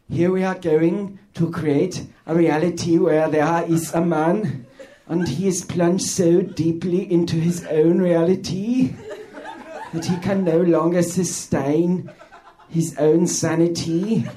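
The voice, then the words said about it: Werner Herzog impression. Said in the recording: “here's my impression of director Werner Herzog pitching a prank show”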